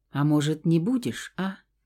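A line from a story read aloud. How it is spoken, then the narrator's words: Quiet question. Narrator (Russian): тихонько спросила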